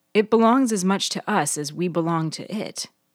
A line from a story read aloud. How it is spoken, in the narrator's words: she sighed